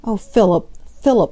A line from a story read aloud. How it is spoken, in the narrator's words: she murmured